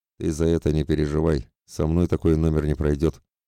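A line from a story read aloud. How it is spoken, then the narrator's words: Gloomy reply. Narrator (Russian): мрачно ответил его высокий худой напарник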